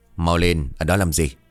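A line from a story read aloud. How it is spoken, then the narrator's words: Snapped irritably. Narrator (Vietnamese): Hắn bây giờ liền gắt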